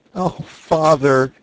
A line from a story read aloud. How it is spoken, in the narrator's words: said he, sobbing